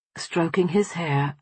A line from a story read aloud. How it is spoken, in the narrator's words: I murmured